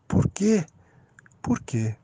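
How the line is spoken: Calm, quiet question. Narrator (Portuguese): Ela não parecia irritada por minhas palavras e simplesmente perguntou em voz baixa

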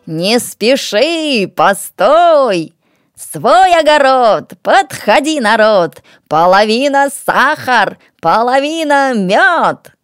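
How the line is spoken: Loud calling out. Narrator (Russian): Зазывает громко

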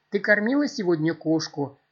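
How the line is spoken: Mother's sigh. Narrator (Russian): вздохнула мать

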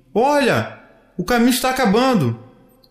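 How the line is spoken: Shouting to get attention. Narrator (Portuguese): gritou chamando a atenção do filho

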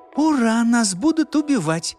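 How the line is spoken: Lively exclamation. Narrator (Russian): воскликнула Маша, оживляясь

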